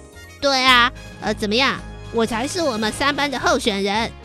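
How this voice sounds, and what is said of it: Usual voice. Nothing is said of it.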